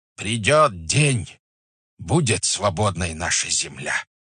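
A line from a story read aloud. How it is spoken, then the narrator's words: Shouted. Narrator (Russian): крикнул Шибалка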